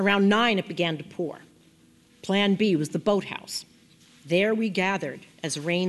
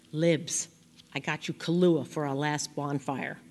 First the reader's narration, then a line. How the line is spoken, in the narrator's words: he whispered